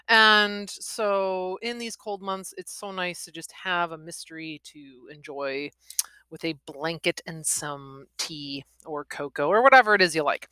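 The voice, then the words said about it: Midwestern American accent. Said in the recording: “I am in the Midwest, if my accent didn't make that obvious”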